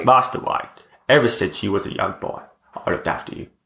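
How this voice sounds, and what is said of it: Michael Caine impression. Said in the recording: “your Michael Caine impression”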